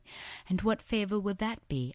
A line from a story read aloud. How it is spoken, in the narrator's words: I asked, my voice trembling slightly